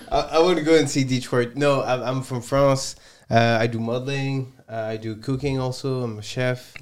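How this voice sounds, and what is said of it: Heavy French accent. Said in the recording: “My boy ... got a super heavy accent ... So he's really French ... Really French”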